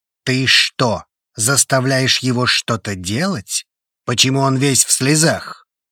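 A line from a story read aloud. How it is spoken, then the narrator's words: Worried young man barking. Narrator (Russian): Рявкнул парень, переживает за меня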